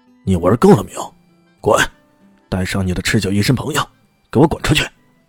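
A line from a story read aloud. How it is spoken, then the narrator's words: Furious roar. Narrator (Chinese): 陆东阳的脸色越来越差了，冲着陆世昌怒吼道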